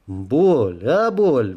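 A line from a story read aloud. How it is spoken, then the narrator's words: Shouting out. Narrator (Russian): выкрикнул я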